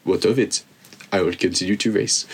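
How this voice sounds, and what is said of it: Weak put-on French accent. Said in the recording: “it's going to have a French accent ... Oh, is that your French accent, was it? ... Well, it's not your French accent either.”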